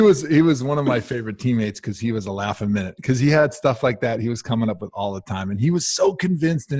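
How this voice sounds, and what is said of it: Usual voice. Nothing is said of it.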